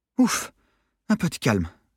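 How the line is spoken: Sighing woman. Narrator (French): soupira-t-elle

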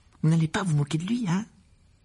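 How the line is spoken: Worried tone. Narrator (French): ajouta-t-elle d'un ton inquiet

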